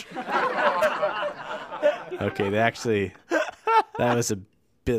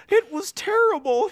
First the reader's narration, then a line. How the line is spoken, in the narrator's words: he answered shakily